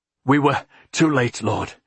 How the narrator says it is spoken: the man said hoarsely, breathing hard

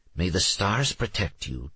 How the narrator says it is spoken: Trixie whispered in Alex's ear

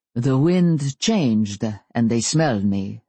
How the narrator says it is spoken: Stefan said

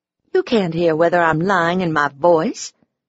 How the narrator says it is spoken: I scoffed

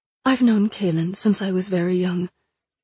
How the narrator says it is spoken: she said finally

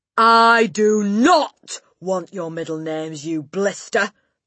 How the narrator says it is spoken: the Gorgon bellowed

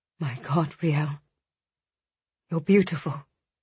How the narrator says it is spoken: Audric murmured

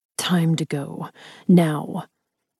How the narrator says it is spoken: he growled

